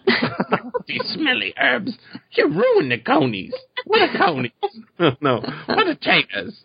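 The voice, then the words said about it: Imitates a fantasy character's voice. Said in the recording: “That's the best imitation I've heard yet ... you could do the audio drama yourself”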